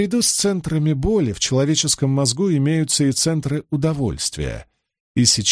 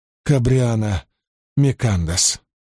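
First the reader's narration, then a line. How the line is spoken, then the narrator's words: Hoarse nervous mutter. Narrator (Russian): прокашлялась и, наконец, хрипло пробормотала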